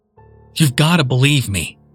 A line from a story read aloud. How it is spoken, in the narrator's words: shouted